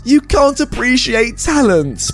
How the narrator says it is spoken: her entitled parent, the teacher, takes a microphone and yells

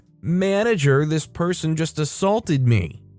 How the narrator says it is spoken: she screamed

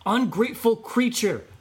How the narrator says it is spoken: exclaimed Brave Boy

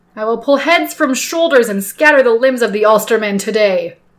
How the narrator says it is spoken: shouts like a madman

